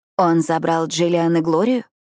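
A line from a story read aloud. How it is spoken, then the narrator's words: Hoarse, holding back tears. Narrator (Russian): спрашиваю я хриплым от непролитых слез голосом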